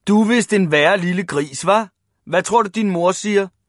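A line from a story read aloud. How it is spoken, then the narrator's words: Group shouting. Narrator (Danish): råbte de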